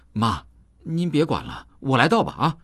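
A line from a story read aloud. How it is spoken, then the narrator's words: Hurried. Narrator (Chinese): 急忙接过泔水桶，对妈说道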